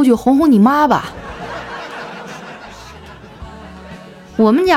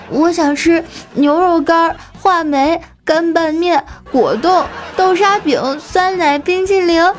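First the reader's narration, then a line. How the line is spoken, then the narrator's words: Child, just stopped crying. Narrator (Chinese): 丸子立马就不哭了，说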